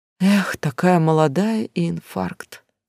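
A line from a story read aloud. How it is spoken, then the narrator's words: Sorrowful sigh. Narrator (Russian): сокрушенно вздохнул Валерий Палыч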